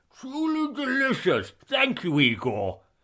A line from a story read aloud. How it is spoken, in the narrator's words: Sean slurred between chomps